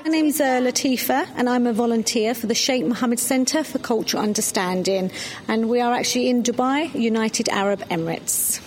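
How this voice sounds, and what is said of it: London accent. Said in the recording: “I'm a Londoner, maybe you can tell by my accent”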